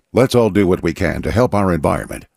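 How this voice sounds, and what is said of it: Nice radio announcer voice. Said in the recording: “Nice voice on that gentleman. Nice radio voice. Nice pipes”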